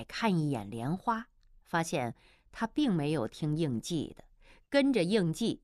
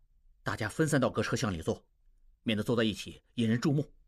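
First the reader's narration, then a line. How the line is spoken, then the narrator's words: Low voice. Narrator (Chinese): 应季低声说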